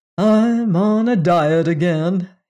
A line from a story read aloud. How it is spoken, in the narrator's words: he sighed